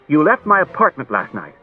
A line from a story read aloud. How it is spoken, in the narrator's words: Daniil sharply and said